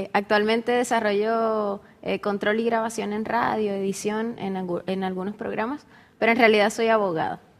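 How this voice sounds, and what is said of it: Noticeable Venezuelan Spanish accent. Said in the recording (Spanish): “tu acento es diferente al nuestro acá en Chile, que es bastante plano ... yo soy de Venezuela, vengo de Venezuela, creo que el acento es un poquito notorio”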